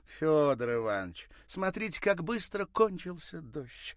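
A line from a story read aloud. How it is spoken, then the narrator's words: Exclaimed. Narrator (Russian): воскликнула Ирина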